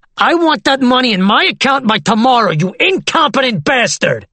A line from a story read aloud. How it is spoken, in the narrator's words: screaming